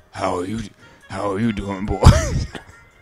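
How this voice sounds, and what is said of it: Sexy voice. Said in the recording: “That's a real sexy voice you got there”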